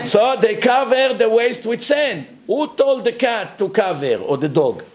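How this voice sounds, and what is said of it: Speaks with a noticeable accent. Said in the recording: “You should be used to my accent by now”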